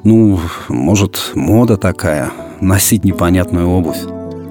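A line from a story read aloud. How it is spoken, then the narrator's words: Embarrassed mother's mumble. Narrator (Russian): Мама, увидев, как занервничал сын, засмущалась и пробормотала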